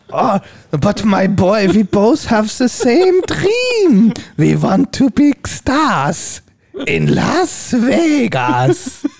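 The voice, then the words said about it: Put-on Dutch accent in English. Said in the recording (German): “Was macht der Tom Hanks jetzt als Holländer? ... Wie macht er in Akzent?”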